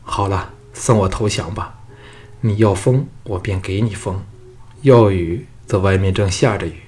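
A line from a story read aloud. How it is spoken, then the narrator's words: Sighing. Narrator (Chinese): 项少龙叹道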